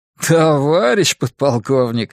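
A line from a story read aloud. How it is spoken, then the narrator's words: Laughing. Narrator (Russian): рассмеялся капитан третьего ранга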